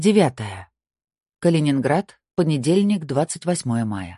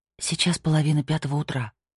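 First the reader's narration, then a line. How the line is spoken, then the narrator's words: Whisper. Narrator (Russian): прошептала она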